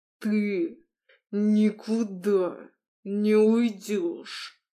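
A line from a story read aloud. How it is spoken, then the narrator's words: Through teeth, clipped words. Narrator (Russian): процедил он сквозь зубы, чеканя каждое слово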